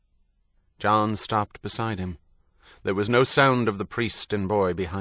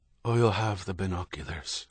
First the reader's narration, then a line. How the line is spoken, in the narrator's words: Herity said, his voice hushed